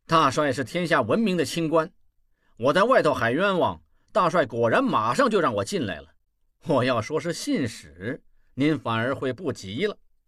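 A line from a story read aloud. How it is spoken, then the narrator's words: Sneering. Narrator (Chinese): 望柏冷笑道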